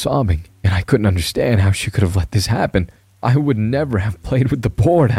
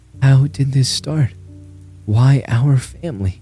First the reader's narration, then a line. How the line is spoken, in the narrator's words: She sighed